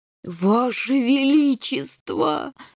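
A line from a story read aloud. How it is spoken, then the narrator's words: Groaning. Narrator (Russian): застонал генерал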